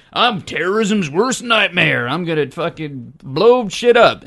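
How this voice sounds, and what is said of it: Weird, unpolished put-on Canadian accent. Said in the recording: “weird Canadian accent ... Sorry. I need some work.”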